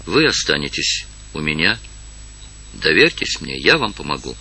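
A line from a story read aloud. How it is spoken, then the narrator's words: Gentle, kind. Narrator (Russian): сказала ласково Евгения старухе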